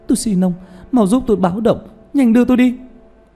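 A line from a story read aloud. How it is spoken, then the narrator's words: Frightened cry, woman. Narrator (Vietnamese): nàng sợ hãi kêu lên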